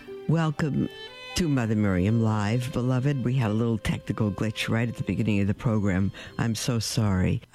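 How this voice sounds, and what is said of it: Slightly hoarse voice. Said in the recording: “I sound a little hoarse, ... it's because I still am. This throat is lingering on”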